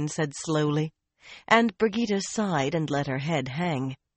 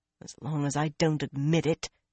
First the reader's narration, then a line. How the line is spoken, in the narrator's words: Brigida muttered